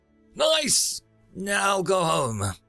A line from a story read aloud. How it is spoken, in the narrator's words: called out to the old one